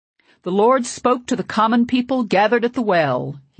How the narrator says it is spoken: he said at last, in his old booming voice that allowed no corner for doubt

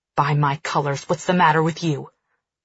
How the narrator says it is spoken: he snarls

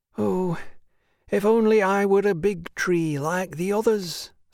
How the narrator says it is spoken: sighed the little tree

